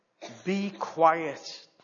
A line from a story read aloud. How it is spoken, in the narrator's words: Jesus said sternly